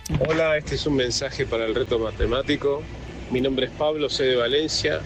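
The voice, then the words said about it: Argentine or Uruguayan Spanish accent. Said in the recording (Spanish): “con acento argentino ... Bueno, uruguayo”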